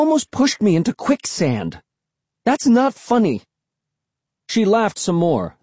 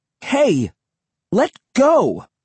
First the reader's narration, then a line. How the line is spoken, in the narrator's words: I cried angrily